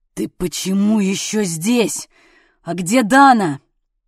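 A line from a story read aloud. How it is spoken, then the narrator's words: Near growl. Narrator (Russian): почти прорычал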